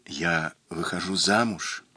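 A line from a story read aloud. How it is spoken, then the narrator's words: Barely audible. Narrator (Russian): чуть слышно прибавила она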